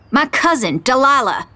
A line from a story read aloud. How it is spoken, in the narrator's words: I shout at him